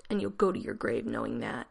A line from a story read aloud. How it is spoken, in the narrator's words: he croaked